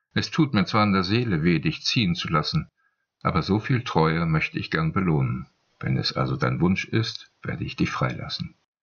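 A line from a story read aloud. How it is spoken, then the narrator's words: Calm answer. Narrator (German): antwortete Timokrates ruhig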